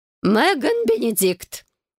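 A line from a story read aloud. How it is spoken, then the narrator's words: Mother's shrill high-pitched shriek. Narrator (Russian): Вновь взвизгнула матушка, переходя на высокие ноты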